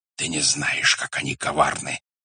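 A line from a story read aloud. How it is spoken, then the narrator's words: Whispering in ear. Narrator (Russian): шептал он на ухо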